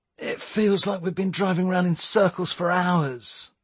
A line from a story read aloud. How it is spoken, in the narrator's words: he moaned